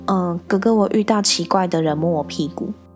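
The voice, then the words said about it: Quiet whisper. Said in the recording (Chinese): “小声在我哥耳边说悄悄话”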